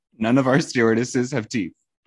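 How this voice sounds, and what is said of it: Put-on Irish accent. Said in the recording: “In an Irish accent.”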